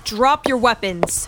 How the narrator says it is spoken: Trudy yelled authoritatively

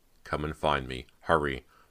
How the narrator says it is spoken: the voice urged sharply

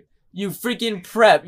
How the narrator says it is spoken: yelled Draco

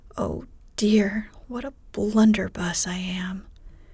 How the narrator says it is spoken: exclaimed Jo

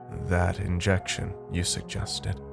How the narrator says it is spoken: he said, his voice dark and low

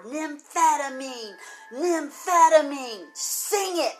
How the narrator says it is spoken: roared

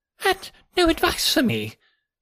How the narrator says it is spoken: cried Blessington in a breaking voice

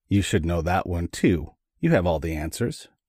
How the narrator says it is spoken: Morocco said dryly

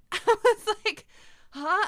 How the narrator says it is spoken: I gasped

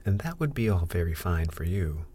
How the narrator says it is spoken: exclaimed Ernest

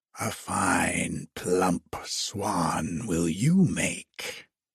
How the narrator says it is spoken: hissed the old witch

